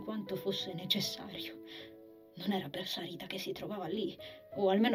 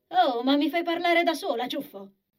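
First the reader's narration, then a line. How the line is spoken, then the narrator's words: Irritated exclamation. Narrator (Italian): esclamò Sarita con irritazione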